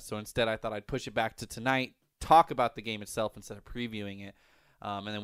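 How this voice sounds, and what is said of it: Slightly congested, phlegmy voice. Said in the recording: “You might still be able to hear it in my voice a little bit ... Just a little bit of a head cold, just a little bit of a phlegm and whatnot”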